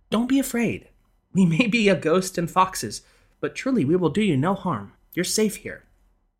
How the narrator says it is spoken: telling him soothingly

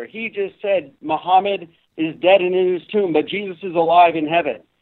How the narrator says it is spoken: she yelled out even louder

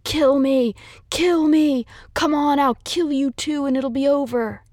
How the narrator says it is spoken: screaming

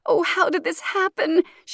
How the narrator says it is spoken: She wails

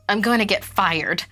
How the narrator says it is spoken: Allison blurted out cynically

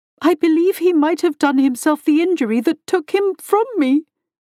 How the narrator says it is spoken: she sobbed

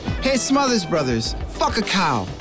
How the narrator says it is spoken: a natural heckler, yelled to the stage

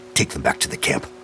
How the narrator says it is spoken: he snapped at St

